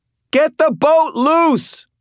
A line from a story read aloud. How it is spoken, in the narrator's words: Elaine shouted